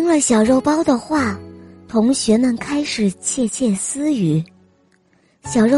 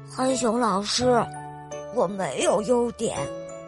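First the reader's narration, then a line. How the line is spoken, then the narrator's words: Quiet, dejected. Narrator (Chinese): 小肉包 他低声地说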